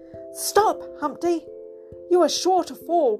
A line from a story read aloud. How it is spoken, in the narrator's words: cried Georgie Porgy in dismay